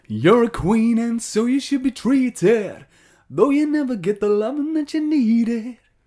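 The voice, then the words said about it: Bad sung impression of a singer. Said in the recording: “It's Gary Barlow... That's the worst impression I've ever heard in my life”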